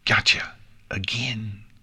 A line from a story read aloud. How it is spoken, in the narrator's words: Pinkie Pie hissed with a menacing grin